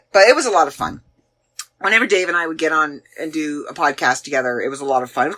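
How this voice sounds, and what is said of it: Canadian accent. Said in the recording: “my Canadian accent ... I'm Canadian ... My accent is there”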